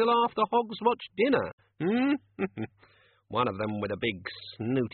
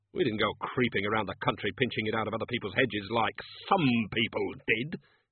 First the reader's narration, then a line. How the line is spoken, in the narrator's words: he snapped